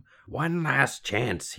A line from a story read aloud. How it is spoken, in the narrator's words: croaked